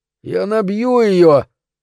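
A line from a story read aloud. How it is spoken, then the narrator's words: Groaning. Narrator (Russian): простонал Мультик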